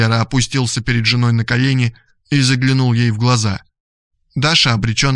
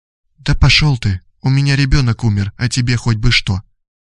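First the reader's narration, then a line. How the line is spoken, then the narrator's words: Barely audible, dazed. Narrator (Russian): Но Даша смотрела на него мутным взором и еле слышно отвечала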